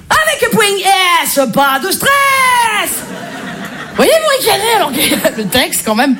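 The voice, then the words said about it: Marseille French accent. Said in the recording (French): “je suis marseillaise ... l'accent marseillais”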